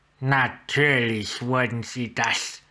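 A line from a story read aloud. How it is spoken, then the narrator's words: Short disgusted hiss. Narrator (German): Kurz stieß ein kurzes, angewidertes Zischen aus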